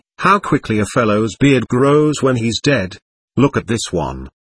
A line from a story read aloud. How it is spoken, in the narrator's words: the Sudeten remarked calmly